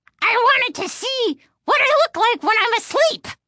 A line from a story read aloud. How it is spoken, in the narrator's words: answered the dummy in a high-pitched, squeaky voice